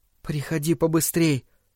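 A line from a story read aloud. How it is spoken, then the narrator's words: Whispered. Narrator (Russian): прошептал Дэнни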